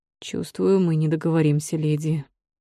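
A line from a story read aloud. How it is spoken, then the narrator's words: Heavy sigh. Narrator (Russian): тяжело вздохнул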